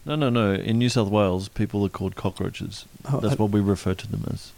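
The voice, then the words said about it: Timid, mumbly British-sounding Australian accent. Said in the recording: “he is Australian. He's just got a really timid, mumbly, British-y Australian accent ... He speaks very regal Australian, the big city Australian.”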